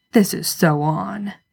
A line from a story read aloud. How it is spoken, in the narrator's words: Dean grumble